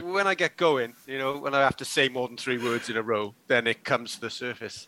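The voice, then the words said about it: Welsh Cardiff accent. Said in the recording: “that beautiful Cardiff accent that you can hear there is the most Cardiff sounding man in the world ... I promise you, you do.”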